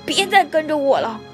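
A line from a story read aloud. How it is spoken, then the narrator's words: Angry. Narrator (Chinese): 说完，他生气地走了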